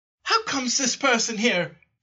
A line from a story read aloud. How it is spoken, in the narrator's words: exclaimed